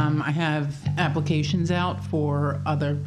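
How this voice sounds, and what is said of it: Usual voice. Nothing is said of it.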